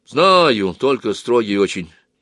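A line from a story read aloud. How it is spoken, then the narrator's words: Stout man sighing. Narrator (Russian): вздохнул толстый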